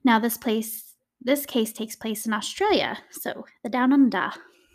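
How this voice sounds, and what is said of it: Poor put-on Australian accent. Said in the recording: “That was my horrible Australian accent.”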